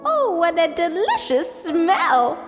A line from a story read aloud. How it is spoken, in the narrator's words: she exclaimed